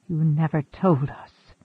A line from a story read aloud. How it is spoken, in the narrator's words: Macandal whispered